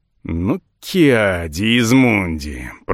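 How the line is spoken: Growl. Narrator (Russian): прорычал я

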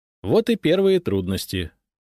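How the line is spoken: Cheerful. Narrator (Russian): весело сказал я

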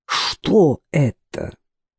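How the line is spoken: Low-voiced question. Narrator (Russian): спросила Варвара Васильевна низким голосом, который всегда появлялся у нее в особые минуты

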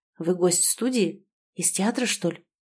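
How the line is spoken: Whispered question. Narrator (Russian): шепотом спросил Тарас

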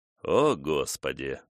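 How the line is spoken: Muttering. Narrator (Russian): пробормотал он

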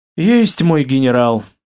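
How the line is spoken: Mock-sad sigh. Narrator (Russian): Деланно печально вздохнул Иван

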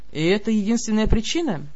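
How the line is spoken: Sighing. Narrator (Russian): Я вздохнула

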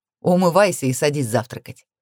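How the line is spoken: Cheerful laugh. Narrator (Russian): весело рассмеялся

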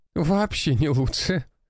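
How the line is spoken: Laughing. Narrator (Russian): смеялась Нина

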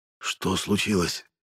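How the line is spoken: Barely audible question. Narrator (Russian): едва слышно спросил Силин

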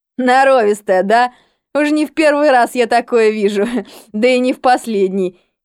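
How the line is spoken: Giggling. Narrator (Russian): Хихикал

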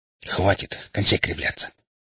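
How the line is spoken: Displeased hiss. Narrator (Russian): недовольно прошипел я вслух

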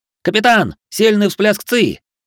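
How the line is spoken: Shouted. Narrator (Russian): выкрикнул худощавый шиноби

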